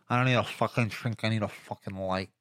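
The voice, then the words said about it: Daniel Day-Lewis impression, My Left Foot. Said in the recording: “Daniel Day-Lewis ... My left foot ... Give us your impersonation ... Nailed it.”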